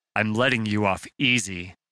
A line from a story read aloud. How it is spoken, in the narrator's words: Brendan growled